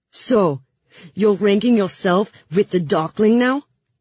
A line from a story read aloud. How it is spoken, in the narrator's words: Marie sputtered